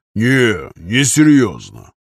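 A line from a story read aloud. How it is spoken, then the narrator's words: Deep bass voice. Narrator (Russian): пробасил Аркадий Шафран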